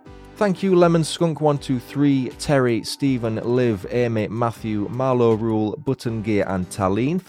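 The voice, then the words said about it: Yorkshire accent. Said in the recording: “Love the Yorkshire accent”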